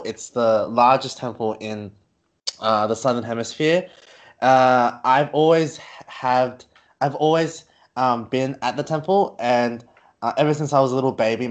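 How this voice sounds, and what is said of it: Australian accent. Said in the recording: “I'm from Australia. As you can see from my accent”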